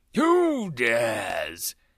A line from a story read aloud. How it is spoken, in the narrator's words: he bellowed